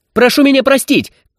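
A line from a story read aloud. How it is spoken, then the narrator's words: Shout. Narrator (Russian): крикнул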